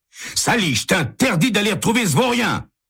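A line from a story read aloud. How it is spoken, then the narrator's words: Shouting. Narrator (French): crie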